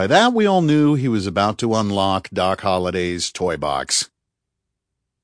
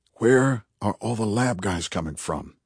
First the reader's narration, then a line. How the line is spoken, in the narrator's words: murmured Tate